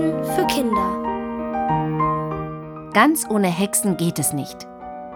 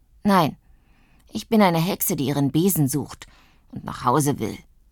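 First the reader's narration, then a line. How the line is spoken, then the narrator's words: Grumbling. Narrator (German): brummt Zuckerguss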